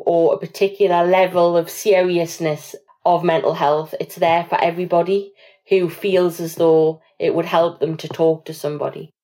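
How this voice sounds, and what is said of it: Northern English accent. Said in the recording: “love your accent. I'm so envious. It reminds me of friends that I can't see in the pandemic ... travelling back up north”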